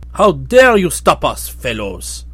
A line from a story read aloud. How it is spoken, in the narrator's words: asked the prince sternly